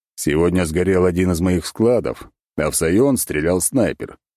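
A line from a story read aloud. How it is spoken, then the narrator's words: Plain. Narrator (Russian): ответил ей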